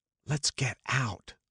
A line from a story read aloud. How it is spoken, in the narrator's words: whispered Jordan